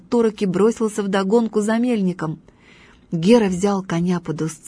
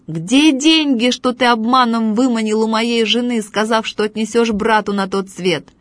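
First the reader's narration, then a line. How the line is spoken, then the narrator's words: Shouting. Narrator (Russian): закричал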